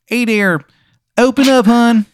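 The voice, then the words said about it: Bad exaggerated Maryland accent. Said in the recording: “He's got like a terrible Maryland accent. ... It just sounds like such shit, his Maryland accent.”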